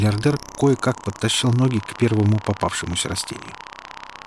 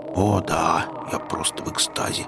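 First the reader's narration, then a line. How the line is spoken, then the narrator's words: Grumbled. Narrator (Russian): проворчал Гарри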